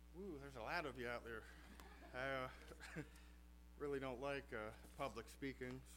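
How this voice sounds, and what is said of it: Non-local regional accent. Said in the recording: “he's not from here. You might be able to tell that from his accent”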